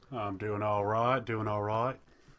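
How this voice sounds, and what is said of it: Bad put-on Southern accent. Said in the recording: “Was that Australian or was that Old West? ... that's the worst Southern accent I ever heard”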